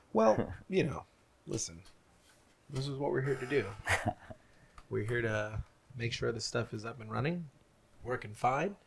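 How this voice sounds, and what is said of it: Sick, stuffy-nosed voice. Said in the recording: “Excuse my voice... I'm just feeling a little sick today... Stuff the nose”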